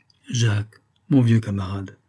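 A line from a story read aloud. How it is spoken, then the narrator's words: Moved, emotional voice. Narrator (French): commença Évonime d'une voix émue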